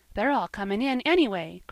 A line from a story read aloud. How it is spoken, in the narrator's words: cried little Davy, delightedly